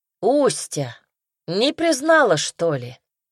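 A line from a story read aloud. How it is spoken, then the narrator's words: Loud question. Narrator (Russian): спросил громко Озеров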